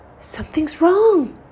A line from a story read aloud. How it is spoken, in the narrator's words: cried Sam